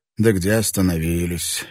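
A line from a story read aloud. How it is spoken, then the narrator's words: Laughing. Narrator (Russian): Родригес рассмеялся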